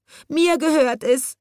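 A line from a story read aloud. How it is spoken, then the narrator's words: Sobbing little girl. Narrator (German): schluchzte ein kleines Mädchen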